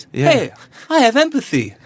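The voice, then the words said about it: Put-on innocent voice. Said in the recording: “doing my innocent voice”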